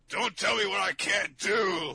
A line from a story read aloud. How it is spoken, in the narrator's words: Locke screamed